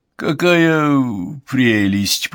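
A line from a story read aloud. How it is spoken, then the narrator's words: Through gritted teeth. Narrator (Russian): процедил Уальд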